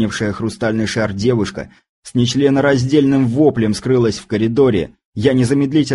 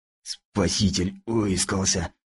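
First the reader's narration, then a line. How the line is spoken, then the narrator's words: Hoarse wheeze. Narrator (Russian): просипел Кузнецов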